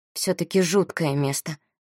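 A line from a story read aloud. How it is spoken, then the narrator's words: Young woman mumbling. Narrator (Russian): пробормотала девушка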